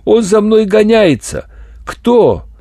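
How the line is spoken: Desperate scream. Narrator (Russian): она отчаянно закричала

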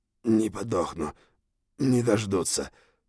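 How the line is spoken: Hoarse croak. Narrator (Russian): прохрипел он

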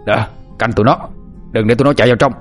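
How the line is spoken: Yelled orders. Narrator (Vietnamese): Tiếng của tên Lê Cao Hưng la hét với đám lâu la

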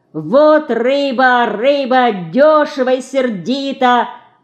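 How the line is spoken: Lively shout, cut short. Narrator (Russian): Бойко закричал Ленька и вдруг осекся

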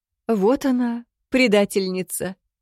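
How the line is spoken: Cheerful loud laughter. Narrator (Russian): Ничуть не расстроившись, расхохотался Висташе

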